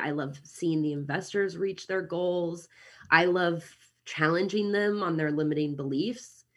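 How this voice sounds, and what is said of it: American Midwestern accent. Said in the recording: “as you can hear from my accent, I'm American. I'm from Kansas City originally”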